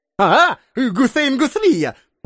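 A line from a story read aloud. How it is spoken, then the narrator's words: Animated exclamation. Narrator (Russian): воскликнул эмир, оживившись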